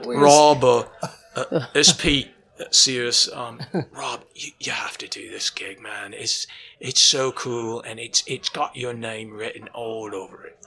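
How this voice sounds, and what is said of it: Imitates another person's voice. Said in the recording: “That's the perfect accent.”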